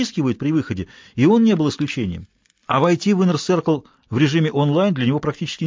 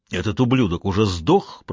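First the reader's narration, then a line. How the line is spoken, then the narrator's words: Grumbling. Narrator (Russian): проворчал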